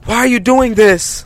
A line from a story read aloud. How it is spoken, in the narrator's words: I yelled again